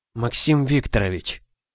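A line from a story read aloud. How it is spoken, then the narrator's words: Breathless exhale. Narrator (Russian): В последней попытке выдохнула она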